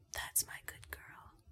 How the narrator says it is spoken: You whisper in my ear

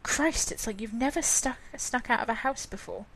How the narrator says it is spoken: Lindsay whispered

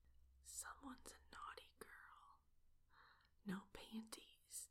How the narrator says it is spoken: whisper in my ear

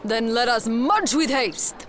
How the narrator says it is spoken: Alfonso shouts

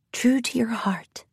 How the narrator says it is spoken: whispered

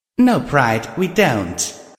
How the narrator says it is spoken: I said coldly

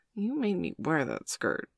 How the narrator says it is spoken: mumbled Bailey, flushing pink

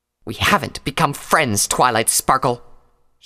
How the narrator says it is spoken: she hissed

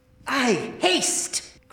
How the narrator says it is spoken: cried Rinaldo

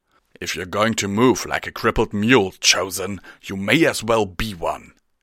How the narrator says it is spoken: he snarled

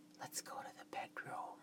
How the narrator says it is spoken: whispered

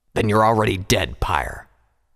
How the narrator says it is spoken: Vanguard growled

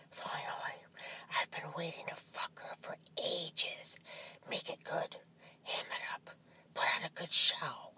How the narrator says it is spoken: whispered in my ear

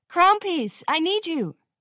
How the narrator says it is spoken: Songbird called out

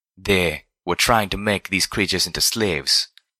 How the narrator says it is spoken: Zenith said in a low voice

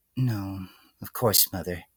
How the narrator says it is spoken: the filly murmured in response, almost entirely out of habit

